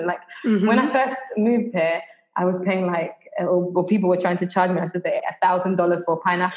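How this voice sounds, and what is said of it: Mild Jamaican accent with UK touch. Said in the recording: “your accent isn't even that, you know, strong. I think you could pass for a Jamaican ... someone that was born here in Jamaica, and then you spend like a small amount of time in the UK”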